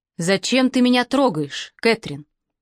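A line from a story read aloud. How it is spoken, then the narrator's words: Dry and cold. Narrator (Russian): Вопрос прозвучал сухо и холодно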